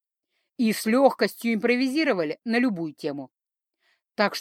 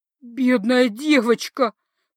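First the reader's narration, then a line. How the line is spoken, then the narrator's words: Tender-hearted cook sobbing. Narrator (Russian): всхлипывала сердобольная повариха, высмаркиваясь в передник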